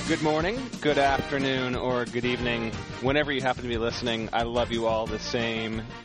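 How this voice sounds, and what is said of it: Flat, robotic delivery. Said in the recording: “kind of talking like a robot”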